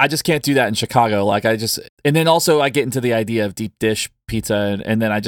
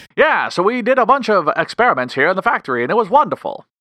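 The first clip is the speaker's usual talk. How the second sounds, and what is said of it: Put-on 1920s old-timey accent. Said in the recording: “you do have a very good 1920s accent.”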